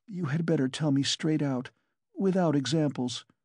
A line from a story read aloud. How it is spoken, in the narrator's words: she begged, still more timidly and scarcely audible